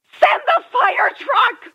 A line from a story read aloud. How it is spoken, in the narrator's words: a female voice shouted frantically